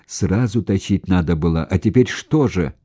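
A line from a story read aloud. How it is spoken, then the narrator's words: Angry. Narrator (Russian): сердито сказал Хорошев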